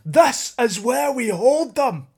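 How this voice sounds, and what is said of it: Put-on Scottish accent, shouted line. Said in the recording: “it sounds better in a Scottish accent ... It is Scottish, I knew it.”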